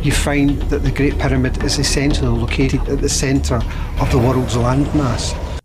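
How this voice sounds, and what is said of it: Accent like characters in Brave. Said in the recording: “I love that guy's accent. ... Reminds me of the movie Brave.”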